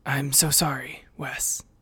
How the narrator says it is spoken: muttered

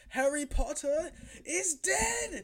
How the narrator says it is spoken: Voldemort's haunting voice when he screams

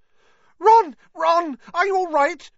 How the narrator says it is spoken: squealed Hermione

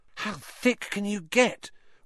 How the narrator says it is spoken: Ron whispered ecstatically

